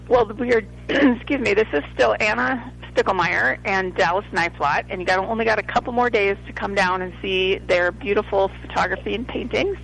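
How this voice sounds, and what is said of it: Froggy, hoarse voice. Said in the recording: “my voice is a little froggy”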